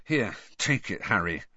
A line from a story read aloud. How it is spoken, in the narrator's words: Ron added in an undertone